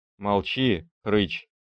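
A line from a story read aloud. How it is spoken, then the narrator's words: Stammering reply. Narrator (Russian): отвечал я ему, запинаясь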